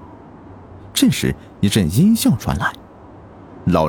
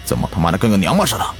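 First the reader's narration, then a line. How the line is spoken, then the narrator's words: Furious. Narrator (Chinese): 南哥大怒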